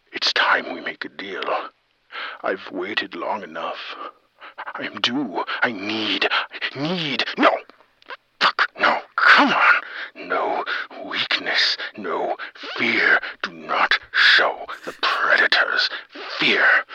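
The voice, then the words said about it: Joker-like villain character voice. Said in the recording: “This is a guy doing a Joker impression.”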